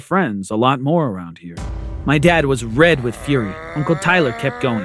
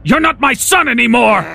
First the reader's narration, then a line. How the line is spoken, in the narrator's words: he roared